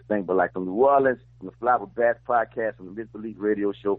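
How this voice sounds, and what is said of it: Distinctive accent, attractive voice. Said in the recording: “Love your accent, dog. ... that's a sexy voice.”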